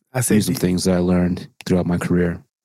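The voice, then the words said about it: Imitates another person's voice. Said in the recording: “Do you think LeBron has a soothing voice? ... he talks like this.”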